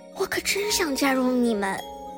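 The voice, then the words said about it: Soft, quiet voice. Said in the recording (Chinese): “思思小声地说”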